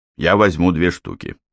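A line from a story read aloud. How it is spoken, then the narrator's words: Plain. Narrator (Russian): сказал мужчина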